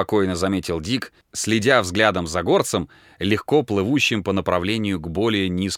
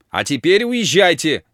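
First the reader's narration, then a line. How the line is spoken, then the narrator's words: Shouted. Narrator (Russian): закричала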